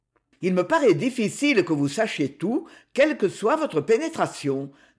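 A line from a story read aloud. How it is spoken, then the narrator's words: Young man, rather cold. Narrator (French): dit le jeune homme assez froidement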